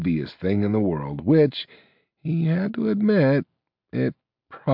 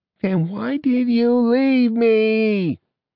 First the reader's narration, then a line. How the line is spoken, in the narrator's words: She cried